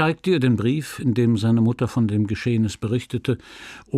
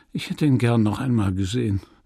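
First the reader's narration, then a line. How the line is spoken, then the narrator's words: Sigh. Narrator (German): seufzte er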